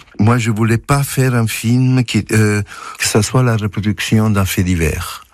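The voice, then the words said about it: Soft Italian accent. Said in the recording (French): “Vous êtes italien, on entend votre doux accent”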